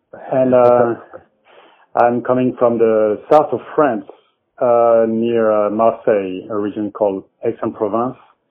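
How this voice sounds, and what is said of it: French accent. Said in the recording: “I'm a musician coming from France, as you can hear with my accent.”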